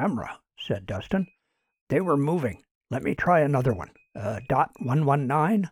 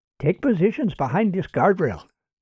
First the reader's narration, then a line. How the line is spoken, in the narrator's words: said Sanchez